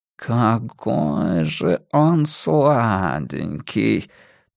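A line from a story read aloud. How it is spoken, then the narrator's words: Languid drawl. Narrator (Russian): Томным голосом протянул Уэртон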